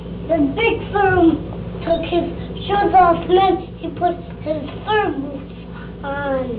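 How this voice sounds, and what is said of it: Chicago accent. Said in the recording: “that's that Chicago accent.”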